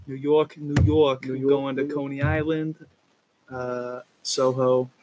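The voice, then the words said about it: Put-on New York accent. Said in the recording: “I don't know why I just had that accent. ... That was a great one, though. ... Fucking sounds like you're already there. ... New Yorker.”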